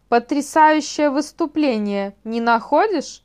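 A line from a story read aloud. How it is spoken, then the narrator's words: Wild laughter. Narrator (Russian): дико рассмеялся клетчатый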